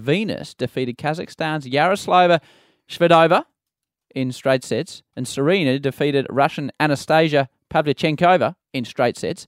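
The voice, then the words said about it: Mock newsreader voice. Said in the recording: “my best newsreader's impersonation”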